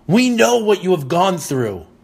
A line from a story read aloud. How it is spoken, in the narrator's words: this man screamed and said